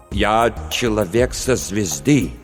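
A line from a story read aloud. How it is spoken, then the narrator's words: Accented speech. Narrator (Russian): Джесс заговорил с акцентом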